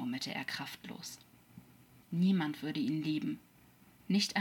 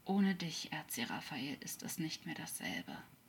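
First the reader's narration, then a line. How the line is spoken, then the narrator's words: Quietly continuing. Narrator (German): sprach leise weiter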